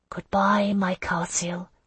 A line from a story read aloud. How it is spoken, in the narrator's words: I whispered